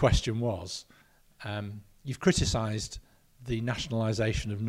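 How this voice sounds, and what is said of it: Usual voice. Nothing is said of it.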